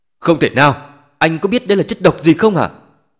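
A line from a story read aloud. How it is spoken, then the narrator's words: Angry. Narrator (Vietnamese): Vương Đức Hữu giận dữ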